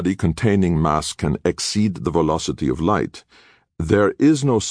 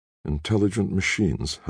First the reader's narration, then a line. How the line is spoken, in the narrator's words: Halleck muttered